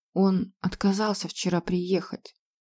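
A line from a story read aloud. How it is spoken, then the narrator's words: Quiet reply. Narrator (Russian): тихо ответила госпожа Дарс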